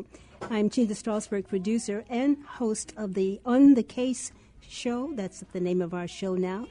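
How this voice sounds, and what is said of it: Rough, sick-sounding voice. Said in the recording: “forgive my voice. I am getting over a cold, almost over.”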